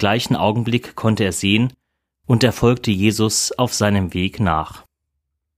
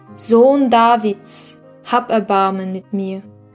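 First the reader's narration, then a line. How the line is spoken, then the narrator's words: Increasingly loud shouting. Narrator (German): ruft immer lauter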